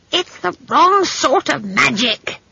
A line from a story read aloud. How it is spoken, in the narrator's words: screeched Granny